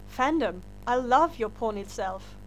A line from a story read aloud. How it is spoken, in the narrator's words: said earnestly